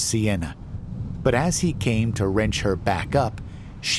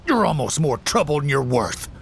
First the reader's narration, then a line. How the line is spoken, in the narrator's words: spat the words, no longer a trace of that southern hospitality